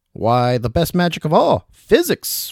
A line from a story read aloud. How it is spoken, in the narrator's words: William exclaimed